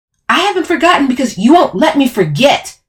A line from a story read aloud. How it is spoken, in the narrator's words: I yelled back